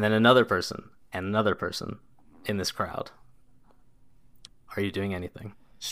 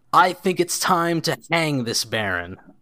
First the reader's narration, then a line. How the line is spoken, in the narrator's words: another person that shouts very clearly above the crowd